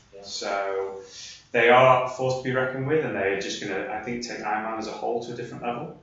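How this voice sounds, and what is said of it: Northern English accent, slight Yorkshire twang. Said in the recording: “So I'm getting your accent there. ... I'm gonna say Yorkshire. ... That's probably a little bit of Yorkshire twang in there as well.”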